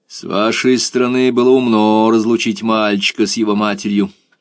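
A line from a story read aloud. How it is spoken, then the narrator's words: Grim. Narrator (Russian): мрачно сказал Эрленд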